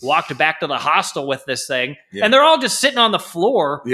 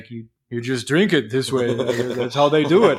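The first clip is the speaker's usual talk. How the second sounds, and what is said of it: Imitates another person's voice, Dracula-like. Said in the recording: “That's an accurate impression. ... That's a very good impression. ... Sounded like Dracula. ... That did sound like Mikkel”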